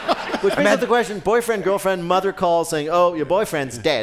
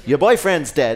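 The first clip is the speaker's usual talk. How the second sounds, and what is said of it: Put-on Australian accent. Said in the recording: “Australian accent.”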